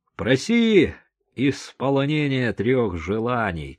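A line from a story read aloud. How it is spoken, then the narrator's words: Shouted. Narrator (Russian): крикнул Артур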